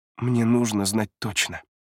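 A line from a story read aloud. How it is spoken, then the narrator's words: Soft. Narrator (Russian): мягко произносит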